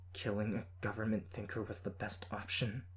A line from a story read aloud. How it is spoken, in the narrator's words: Her voice was tight as she asked